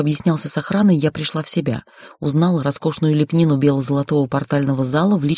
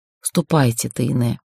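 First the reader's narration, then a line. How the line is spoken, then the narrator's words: Sighing. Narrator (Russian): вздохнул мой жених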